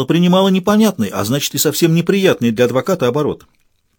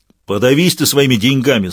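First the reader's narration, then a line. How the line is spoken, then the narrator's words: Short man's guttural-accented growl. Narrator (Russian): снова прорычал коротышка по-французски, но с каким-то гортанным акцентом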